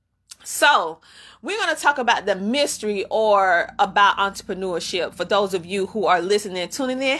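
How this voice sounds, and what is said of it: Congested voice with sniffing. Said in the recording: “I've been blowing my nose ... you might hear me sniffing because, yes, I have a cold.”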